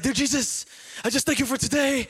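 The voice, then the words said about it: Put-on European accent. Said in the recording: “it's all in a European accent ... that's not Ukrainian, but you know, we're gonna go with it. I'm like Arnold Schwarzenegger”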